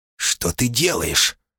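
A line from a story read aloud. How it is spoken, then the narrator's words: Hissed. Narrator (Russian): прошипела хозяйка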